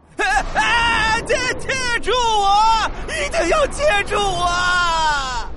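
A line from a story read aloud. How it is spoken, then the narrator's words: Near-tears shout from above. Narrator (Chinese): 天空中传来一声快哭了的大喊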